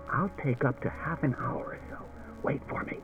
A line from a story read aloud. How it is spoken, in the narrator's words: He whispered to Daniil